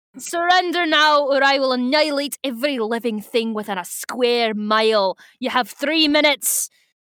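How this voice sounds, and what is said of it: Visser III character voice. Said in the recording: “my Visser III voice”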